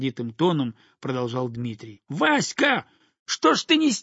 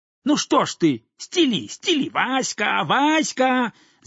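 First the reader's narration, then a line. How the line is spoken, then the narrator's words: Shouted in sudden fury. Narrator (Russian): закричал Дмитрий, входя вдруг в какое-то бешенство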